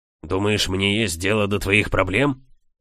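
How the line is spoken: Rude reply. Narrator (Russian): грубо ответил повар

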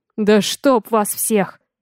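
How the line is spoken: Growling. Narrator (Russian): прорычал

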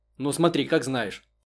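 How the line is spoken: Dry reply. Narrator (Russian): сухо отозвалась Попова

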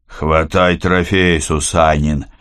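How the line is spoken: Tired command. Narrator (Russian): устало приказал Рогов

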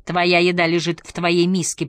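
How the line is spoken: Sharp shout. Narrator (Russian): прикрикнул Ингвар

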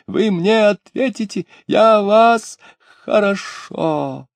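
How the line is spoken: Breathless shriek. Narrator (Russian): регент, задыхаясь, взвизгнул

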